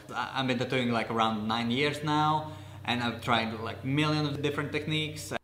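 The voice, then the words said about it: Italian accent. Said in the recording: “he definitely sounds Italian ... is definitely just an Italian person”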